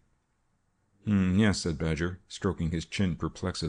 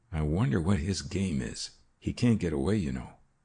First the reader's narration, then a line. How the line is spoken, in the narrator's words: said in a low tone